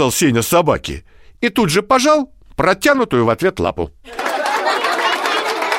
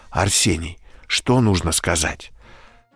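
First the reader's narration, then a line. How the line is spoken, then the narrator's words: Whisper. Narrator (Russian): Мама шепотом говорит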